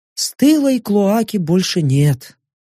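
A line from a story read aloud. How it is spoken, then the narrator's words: Nostalgic, sad sigh. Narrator (Russian): С какой-то даже ностальгической грустью вздохнула Йорка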